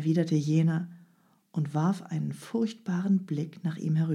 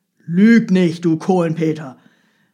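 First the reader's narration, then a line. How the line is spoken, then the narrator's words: Thundering shout. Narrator (German): rief der Holländer Michel mit donnernder Stimme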